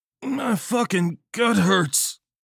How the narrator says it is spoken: John moaned

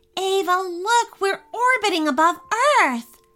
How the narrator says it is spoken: Sally exclaimed with so much excitement

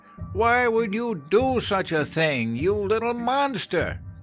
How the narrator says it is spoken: His mother wailed

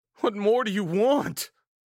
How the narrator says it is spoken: shrieked, too mortified to move

